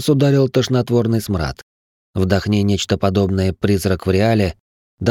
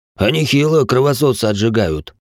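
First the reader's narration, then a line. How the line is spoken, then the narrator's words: Smirking soldier. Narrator (Russian): хмыкнул один из бойцов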